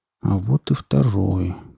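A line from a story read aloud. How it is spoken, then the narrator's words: Muttering. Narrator (Russian): пробормотал Потап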